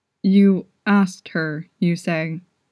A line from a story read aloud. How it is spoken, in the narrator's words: he asked